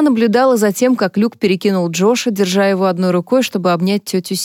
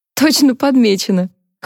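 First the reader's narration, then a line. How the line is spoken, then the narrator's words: Laughing. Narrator (Russian): Харпер засмеялась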